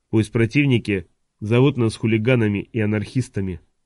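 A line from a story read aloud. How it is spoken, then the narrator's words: Even voice. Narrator (Russian): произнес он ровным голосом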